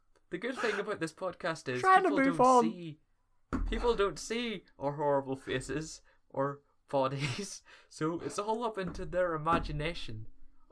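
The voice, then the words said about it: Irish accent. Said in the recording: “two shitty Irish accents. We're Irish”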